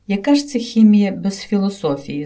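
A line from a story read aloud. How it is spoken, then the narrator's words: Plain. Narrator (Ukrainian): запитав він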